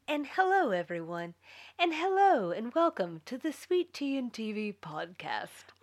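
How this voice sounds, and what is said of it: Attempted public-radio announcer voice. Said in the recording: “I tried to pull on my best NPR voice. It's not very good.”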